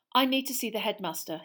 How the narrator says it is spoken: he said

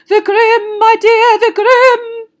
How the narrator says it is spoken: cried Professor Trelawney, who looked shocked that Harry hadn't understood

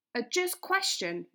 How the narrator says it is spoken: replied Bard

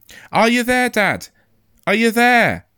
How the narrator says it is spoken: I shouted

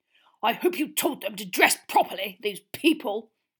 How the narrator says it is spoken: snarled at once

